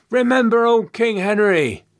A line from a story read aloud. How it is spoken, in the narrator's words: Someone cried out from the crowd